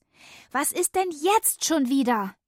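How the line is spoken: Excited call. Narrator (German): rief ich aufgeregt

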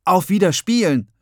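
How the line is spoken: Called out. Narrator (German): rief

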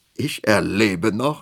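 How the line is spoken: Laughing. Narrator (German): lachte

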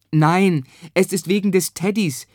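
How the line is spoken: Mother calling back. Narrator (German): rief Bennos Mutter zurück

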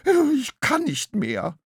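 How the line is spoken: Whining. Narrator (German): jammerte Graugans

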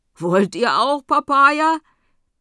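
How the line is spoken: Calling out. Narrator (German): die zweite ruft

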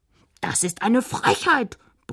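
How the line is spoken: Princess bellowing. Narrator (German): brüllte Prinzessin Esmeralda

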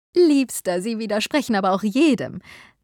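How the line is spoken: Woman laughing while speaking. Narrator (German): sagte seine Frau wie immer lachend

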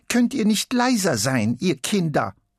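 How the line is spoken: Croaking old woman's voice. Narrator (German): Es krächzt wie die alte Frau, die immer das Fenster zum Hof aufreißt und ruft

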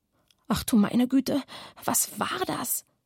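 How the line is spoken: Low murmur. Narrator (German): raunte Oskar

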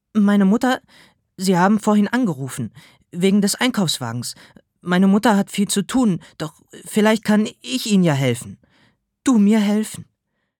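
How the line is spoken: Stammering. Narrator (German): Ich stammelte

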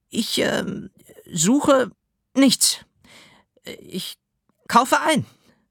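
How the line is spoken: Stuttering. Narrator (German): stotterte

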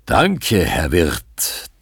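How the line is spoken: Booming, friendly. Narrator (German): donnert es freundlich zurück

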